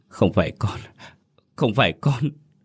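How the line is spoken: Sobbing, muttering. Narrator (Vietnamese): Nó khóc nức nở, miệng vẫn lẩm bẩm không ngừng

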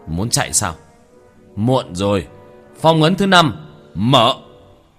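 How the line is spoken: Laughing, wounded, shouting. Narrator (Vietnamese): Tiểu Thất tuét miệng cười một tiếng, khóe miệng tràn ra vết thương đầy máu, quát lên

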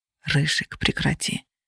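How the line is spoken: Whisper. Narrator (Russian): прошептал Феникс

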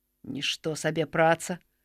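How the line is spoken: Mutter. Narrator (Belarusian): прамармытаў Геракл

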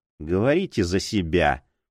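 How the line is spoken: Grumbled. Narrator (Russian): проворчала Ринч

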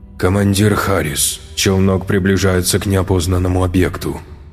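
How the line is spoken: Flat mechanical voice. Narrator (Russian): Безликим голосом автомата доложила

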